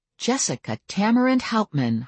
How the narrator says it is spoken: I said in a shocked voice

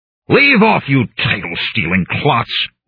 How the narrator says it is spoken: I shouted

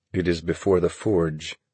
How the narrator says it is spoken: he said

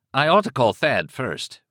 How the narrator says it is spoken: Rick said

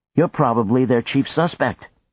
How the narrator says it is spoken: she said irritably

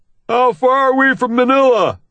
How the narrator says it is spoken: Shafto hollers

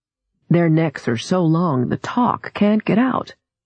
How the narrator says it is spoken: her father said

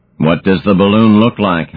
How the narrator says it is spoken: asked Orfu

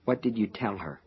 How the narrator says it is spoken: muttered

